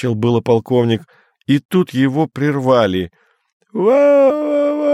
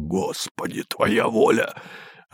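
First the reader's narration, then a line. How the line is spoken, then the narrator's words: Quiet despairing curse. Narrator (Russian): Кто-то тихо с отчаянием выругался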